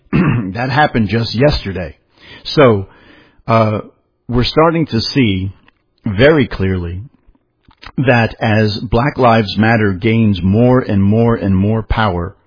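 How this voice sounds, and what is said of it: Hoarse, strained voice. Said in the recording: “I'm losing my voice here.”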